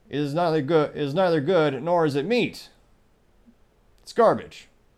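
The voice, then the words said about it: Ron Swanson impression. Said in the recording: “as maybe Ron Swanson from Parks and Recreation might say ... That might be the best impression I've done in a couple weeks.”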